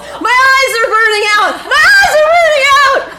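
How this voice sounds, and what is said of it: Screaming. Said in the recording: “I'm screaming”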